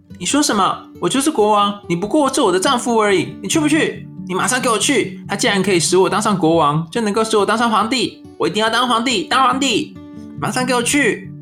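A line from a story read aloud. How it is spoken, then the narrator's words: Loud angry scolding. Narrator (Chinese): 妻子大声的骂他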